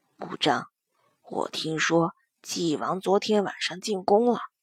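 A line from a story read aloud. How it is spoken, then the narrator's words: Lowered voice. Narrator (Chinese): 柳元浩压低了声音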